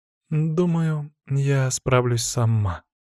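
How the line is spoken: Quiet reply. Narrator (Russian): тихо ответила она

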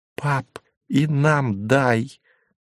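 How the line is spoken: Loud delighted whisper. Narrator (Russian): громко шепнул Тимофей, с восторгом

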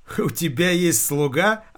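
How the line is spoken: Laughing. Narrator (Russian): она хохотнула

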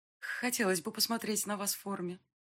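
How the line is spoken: Timid confession. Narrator (Russian): робко призналась я

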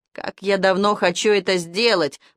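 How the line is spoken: Near moan. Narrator (Russian): почти простонала Ирка

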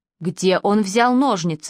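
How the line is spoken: Sharp question. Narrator (Russian): спросил Крис так резко

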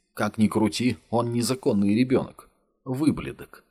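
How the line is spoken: Recalling, then laughing. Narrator (Russian): вспомнила Мила меткое русское выражение и засмеялась

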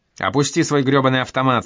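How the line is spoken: Yelled. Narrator (Russian): завопил он

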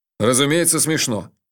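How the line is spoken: Stern. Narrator (Russian): строго сказал Джуфин

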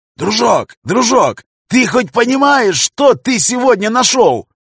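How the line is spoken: Loud yelling. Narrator (Russian): Орал он на всю подлодку

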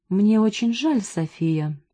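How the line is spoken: Soft but threatening. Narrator (Russian): сказал он мягко, но его тон при этом был угрожающим

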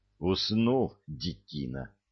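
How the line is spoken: Whisper. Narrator (Russian): шептал

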